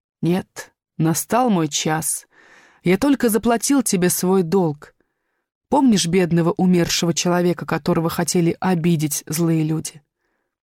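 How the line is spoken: Said gently. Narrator (Russian): ласково сказал

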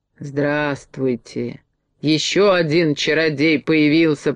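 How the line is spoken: Displeased grumble. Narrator (Russian): проворчала недовольная фея

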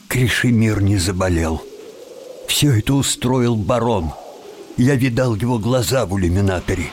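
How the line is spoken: Forced calm voice. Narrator (Russian): уныло ответил Тим и, стараясь говорить спокойным голосом, добавил

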